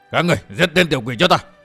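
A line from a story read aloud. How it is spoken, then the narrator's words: Alarmed shout. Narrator (Vietnamese): Lão phó cốc chủ kinh hãi quát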